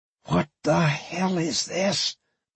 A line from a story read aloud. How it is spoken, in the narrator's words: Novak whispered